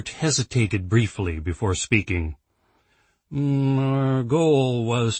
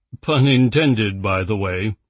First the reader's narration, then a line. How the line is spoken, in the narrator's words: Robert said with a chuckle